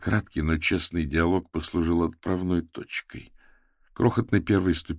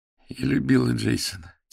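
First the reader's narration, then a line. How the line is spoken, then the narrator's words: Quiet. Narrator (Russian): тихо промолвила она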